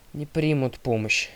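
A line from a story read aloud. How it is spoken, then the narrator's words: Grumbling correction. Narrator (Russian): ворчаливо поправила Талия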